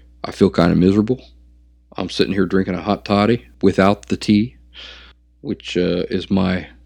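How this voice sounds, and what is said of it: Sick, rough-throated voice. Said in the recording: “I've got a cold. ... to try to kind of smooth my my throat out”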